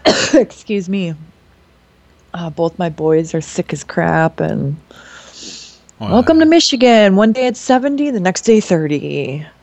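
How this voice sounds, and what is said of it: Nasal, congested sick-sounding voice. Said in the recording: “I've been sick. Like you said, I'm shocked that I don't sound as bad. I sounded worse this morning, but I've got the other Michigan accent going on, which is the nasally sinus crap.”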